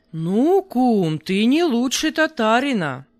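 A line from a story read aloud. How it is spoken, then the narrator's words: Indignant exclamation. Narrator (Russian): воскликнул Карпий с истинным негодованием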